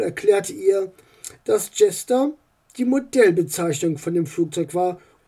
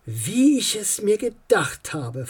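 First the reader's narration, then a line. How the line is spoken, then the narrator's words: Whispered. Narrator (German): flüsterte Paul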